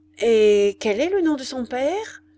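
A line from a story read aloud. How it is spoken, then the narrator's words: Troubled question. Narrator (French): demanda-t-elle d'une voix troublée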